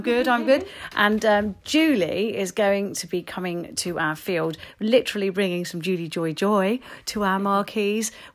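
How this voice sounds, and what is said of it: Calm, slightly croaky voice. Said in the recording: “I'm very calm. I'm very, very relaxed. You can probably hear it in my voice. I'm a little bit croaky”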